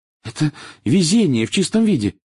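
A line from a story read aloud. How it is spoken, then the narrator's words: Excited. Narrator (Russian): взволнованно произнесла Гермиона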